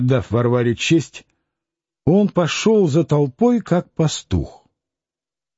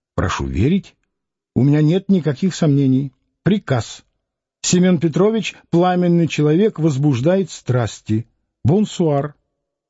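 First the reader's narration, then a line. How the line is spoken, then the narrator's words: Polite and soft. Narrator (Russian): околоточный говорил очень вежливо и мягко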